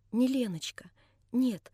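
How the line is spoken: Muffled whisper, face hidden. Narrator (Russian): прошептала она, все еще пряча от меня свое личико

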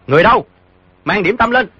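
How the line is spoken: Calling out loudly. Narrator (Vietnamese): cao giọng gọi

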